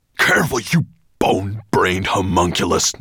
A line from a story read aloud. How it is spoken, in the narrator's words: Nettlebrand spat at him